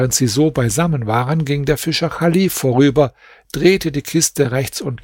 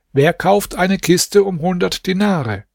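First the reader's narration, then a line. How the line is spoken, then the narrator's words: Called out. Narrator (German): rief aus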